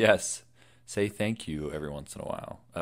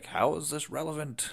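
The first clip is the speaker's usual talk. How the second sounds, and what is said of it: Good impression of Admiral Akbar. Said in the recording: “good Akbar impression.”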